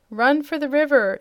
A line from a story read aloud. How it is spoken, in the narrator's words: shouted the Wizard